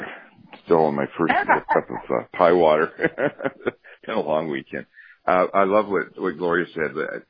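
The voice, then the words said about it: Deep, groggy morning voice. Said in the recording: “My deep voice.”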